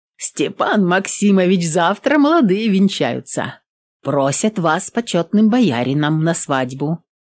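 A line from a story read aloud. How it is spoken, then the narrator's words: Plain. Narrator (Russian): сказала Еремеевна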